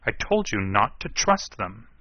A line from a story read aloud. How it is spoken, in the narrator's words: Manning snapped